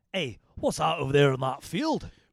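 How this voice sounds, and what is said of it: Bad put-on Scottish accent. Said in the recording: “Sorry about the bad Scottish accent, by the way... that was quite bad... I understood it more than most Scottish accents”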